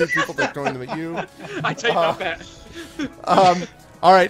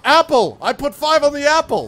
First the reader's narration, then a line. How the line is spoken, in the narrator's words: you hear someone yell out